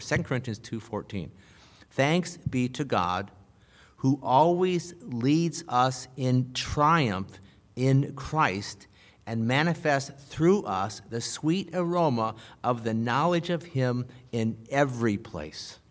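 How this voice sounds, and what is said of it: Reads slowly and deliberately. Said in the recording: “I'm going to read it slowly.”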